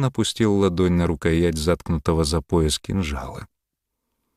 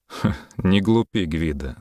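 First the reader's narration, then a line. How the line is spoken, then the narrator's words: Mocking, breaking silence. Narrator (Russian): нарушив паузу, насмешливо сказал Йолн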